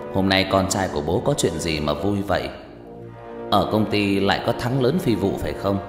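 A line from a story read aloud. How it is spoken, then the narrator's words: Stunned, smiling question. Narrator (Vietnamese): Ông Bình sững sờ, mỉm cười hỏi lại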